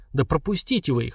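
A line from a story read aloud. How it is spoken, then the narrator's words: Grumbled. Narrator (Russian): проворчал Энет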